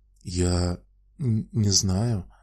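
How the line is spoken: Mumbled. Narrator (Russian): промямлил Пит

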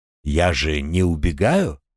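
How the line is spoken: Calm reply. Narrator (Russian): спокойно отозвался Артем

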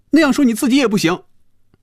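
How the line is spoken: Loud. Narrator (Chinese): 菲比大声说

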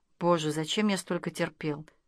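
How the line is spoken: Quiet laughter. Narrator (Russian): Она тихо засмеялась

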